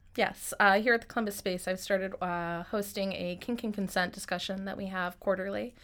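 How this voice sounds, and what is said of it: Slightly weird, sick-sounding voice. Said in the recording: “I sound a little weird. I'm getting over a cold”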